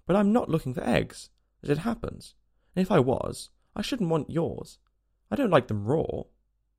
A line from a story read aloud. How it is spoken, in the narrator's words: said Alice hastily